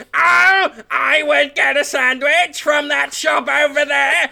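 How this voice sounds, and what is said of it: Attempted Dalek robot voice. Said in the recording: “if you were a bad Dalek ... I can't do the voice.”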